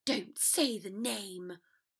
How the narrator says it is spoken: Draco hissed

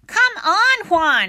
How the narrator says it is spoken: shouted Lydia

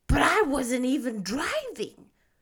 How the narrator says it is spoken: explained indignantly

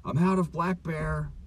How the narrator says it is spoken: yelled into the answering machine

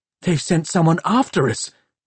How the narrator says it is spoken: he gasped

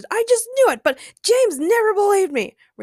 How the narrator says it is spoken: Ray shouted triumphantly

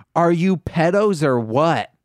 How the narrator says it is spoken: I screamed

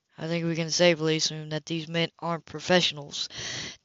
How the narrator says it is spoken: Dallas said quietly

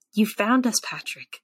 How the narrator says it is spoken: Voices whisper

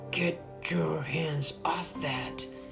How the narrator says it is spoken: Alfie muttered under his breath

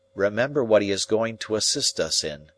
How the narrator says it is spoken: said Herbert

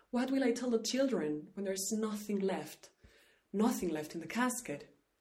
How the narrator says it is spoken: She cried

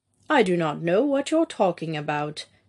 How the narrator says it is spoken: Emil replied stiffly

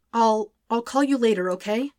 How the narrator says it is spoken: The stammering and sentences phrased as questions

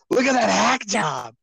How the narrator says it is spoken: he yells

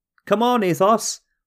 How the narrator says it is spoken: Alexander cried

